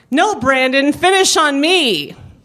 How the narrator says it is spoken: Jennifer screams

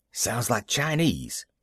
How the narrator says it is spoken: Pop whispered

